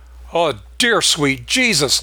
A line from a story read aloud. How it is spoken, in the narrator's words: Lester yelled